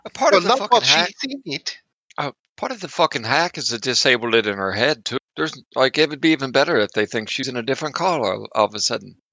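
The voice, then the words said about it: Slipping put-on character accent. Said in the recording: “my accent went off the fucking place. Oh, man. ... We're all having accent trouble.”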